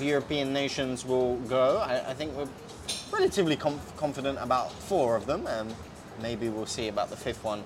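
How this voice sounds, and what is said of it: British accent. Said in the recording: “As you can tell by my accent, I am very British”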